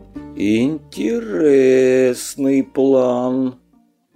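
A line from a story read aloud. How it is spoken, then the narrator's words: Doubtful drawl. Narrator (Russian): с сомнением протянул Илья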